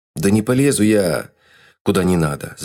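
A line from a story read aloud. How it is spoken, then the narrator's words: Heated exclamation. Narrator (Russian): запальчиво воскликнул Рас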